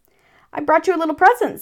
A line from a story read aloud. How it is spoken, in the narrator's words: said Pooh excitedly